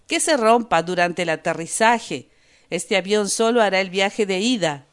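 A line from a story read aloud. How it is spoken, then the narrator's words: Said, then maniacal laughter. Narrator (Spanish): dijo el árabe, y rió como un poseso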